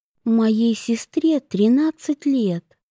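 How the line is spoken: Quiet. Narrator (Russian): тихо сказала она

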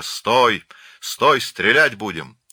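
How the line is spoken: Thunderous menacing command. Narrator (Russian): сзади прогремел грозный приказ

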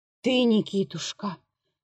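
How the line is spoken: Weak muttering. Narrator (Russian): бормотал обессилевший колхаз

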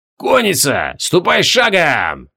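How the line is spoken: Hoarse croaking call. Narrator (Russian): разносится по рядам охрипшее карканье

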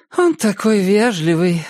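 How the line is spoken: Sighing. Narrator (Russian): вздохнула Иннет

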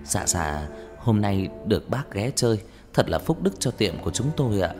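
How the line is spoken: Soft fawning voice. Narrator (Vietnamese): Ông chủ vội như cúp đuôi, như chó con, nói giọng nhỏ nhẹ

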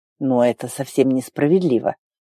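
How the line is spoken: Muttered under breath. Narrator (Russian): пробормотал Арн себе под нос

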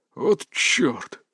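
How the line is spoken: Old man whispering. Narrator (Russian): прошептал дед

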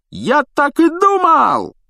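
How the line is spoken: Joyful yell. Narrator (Russian): радостно завопил Стэн

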